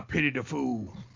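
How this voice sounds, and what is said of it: Mr. T impression. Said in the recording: “impersonate Mr. T”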